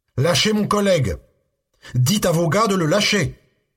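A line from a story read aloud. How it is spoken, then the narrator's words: Yelling. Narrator (French): hurla-t-il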